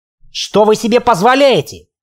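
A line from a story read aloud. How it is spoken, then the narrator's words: Shouting. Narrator (Russian): крикнул он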